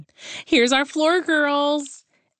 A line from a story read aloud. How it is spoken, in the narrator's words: Emma squealed